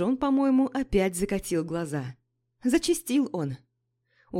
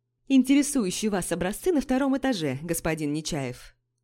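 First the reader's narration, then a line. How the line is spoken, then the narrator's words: Plain. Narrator (Russian): сказал мужчина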